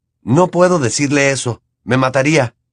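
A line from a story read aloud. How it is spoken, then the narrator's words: Scandalized exclamation. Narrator (Spanish): exclamó Harry escandalizado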